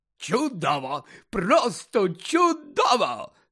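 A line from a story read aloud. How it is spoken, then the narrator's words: Delighted exclamation. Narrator (Ukrainian): захоплено вигукнув Фадж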